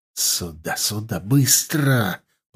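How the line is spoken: Urgent hiss. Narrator (Russian): прошипел Захар

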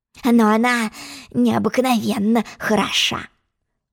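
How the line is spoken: Whispered. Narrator (Russian): Прошептал он

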